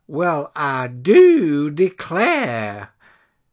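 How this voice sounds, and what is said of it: Cheesy put-on Southern accent. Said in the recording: “their cheesiest southern accent.”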